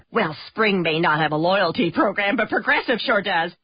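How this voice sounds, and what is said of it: Chatty neighbor character voice. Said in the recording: “my impression of your neighbor who really likes to talk about the weather”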